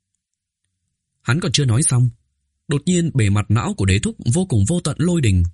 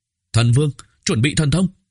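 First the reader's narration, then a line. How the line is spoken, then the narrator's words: Extremely tense shout. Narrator (Vietnamese): Bạch Trạch khẩn trương vạn phần, quát tháo một tiếng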